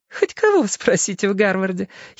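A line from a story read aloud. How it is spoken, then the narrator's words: Giggling. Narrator (Russian): хихикала она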